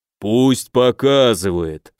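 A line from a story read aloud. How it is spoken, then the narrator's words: Rich bass reply. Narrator (Russian): сочным басом отозвался правый тип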